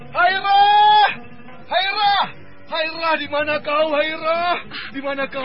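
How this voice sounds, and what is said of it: Frantic shouting. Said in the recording (Indonesian): “teriak-teriak seperti orang kemasukan setan”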